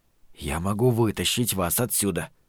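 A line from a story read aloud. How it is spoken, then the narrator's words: Whisper. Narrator (Russian): прошептал он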